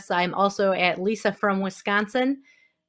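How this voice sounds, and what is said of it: Wisconsin accent. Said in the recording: “Did you hear that accent?”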